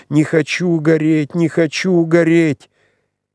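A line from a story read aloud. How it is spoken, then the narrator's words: Increasingly frantic screaming. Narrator (Russian): она кричала все громче, все неистовее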